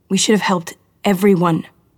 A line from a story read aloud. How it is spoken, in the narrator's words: Cosima said, but she couldn't make herself yell it